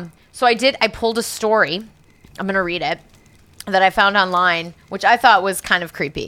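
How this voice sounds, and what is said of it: Usual voice. Nothing is said of it.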